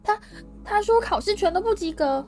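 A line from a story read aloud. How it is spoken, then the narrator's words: Breathless. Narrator (Chinese): 妙丽喘着气说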